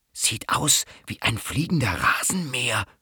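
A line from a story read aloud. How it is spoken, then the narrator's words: Whisper. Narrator (German): flüstert Mücke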